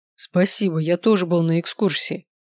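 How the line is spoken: Scoffing snort. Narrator (Russian): хмыкнул Даниэль

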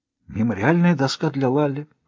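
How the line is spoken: Whisper. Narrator (Russian): прошептала Рози

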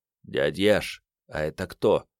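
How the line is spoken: Low-voiced question. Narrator (Russian): вполголоса спросил Керст

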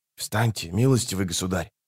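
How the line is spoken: Whisper. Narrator (Russian): шепнул Геральту один из стоявших рядом рыцарей

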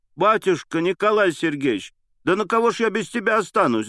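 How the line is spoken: Anguished woman's cry. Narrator (Russian): закричала бедная Анна Андреевна

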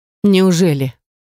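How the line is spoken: Snort. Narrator (Russian): Фарик фыркнул

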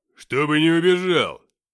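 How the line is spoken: Barked. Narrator (Russian): рявкнул Филиппыч

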